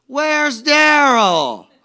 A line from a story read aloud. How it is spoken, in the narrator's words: I yelled to the gentleman